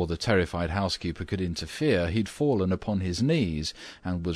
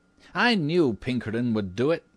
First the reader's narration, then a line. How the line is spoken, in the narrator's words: exclaimed triumphantly